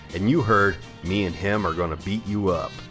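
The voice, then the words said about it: Put-on redneck accent. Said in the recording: “with kind of like a redneck accent”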